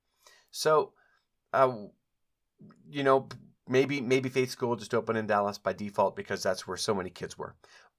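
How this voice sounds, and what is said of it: Strained, fading voice. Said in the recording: “I think I might be losing my voice.”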